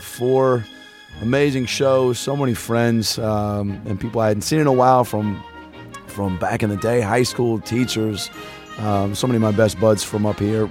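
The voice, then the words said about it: Hoarse, worn-out voice. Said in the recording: “My voice is pretty shot.”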